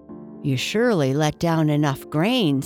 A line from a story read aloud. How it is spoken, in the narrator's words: said Jake